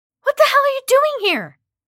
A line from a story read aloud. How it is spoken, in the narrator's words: Kathy yelled